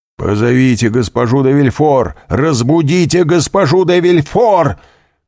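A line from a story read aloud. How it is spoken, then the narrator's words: Shouting. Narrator (Russian): кричал королевский прокурор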